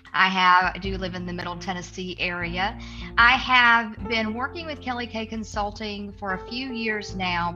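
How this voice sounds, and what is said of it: Southern American accent. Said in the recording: “I've got all of the good Southern accent,”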